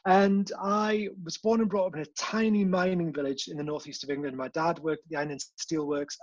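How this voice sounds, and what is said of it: Mild, refined Geordie accent. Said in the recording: “still got a bit of that Geordie accent that lingers on ... I'm what you'd call a posh Geordie ... I've refined Geordie accent”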